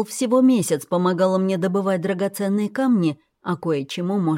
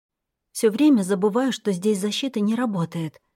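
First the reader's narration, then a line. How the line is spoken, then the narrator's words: Muttered. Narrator (Russian): пробормотала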